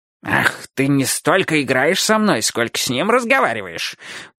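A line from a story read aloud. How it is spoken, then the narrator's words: Growling puppy. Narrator (Russian): прорычал щенок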